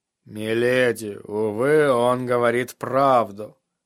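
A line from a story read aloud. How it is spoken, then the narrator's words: Tired. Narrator (Russian): усталым голосом заметил сир Родрик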